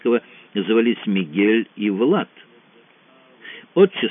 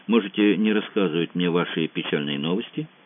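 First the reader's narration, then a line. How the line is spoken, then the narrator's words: Quiet. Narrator (Russian): тихо произнес Франсуа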